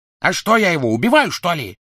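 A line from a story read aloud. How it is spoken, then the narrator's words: Barking. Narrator (Russian): рявкнул Крэб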